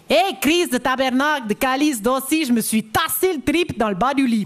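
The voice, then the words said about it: Put-on Québécois French accent. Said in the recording (French): “l'accent québécois ... je sais que j'ai dit que je ne savais pas faire”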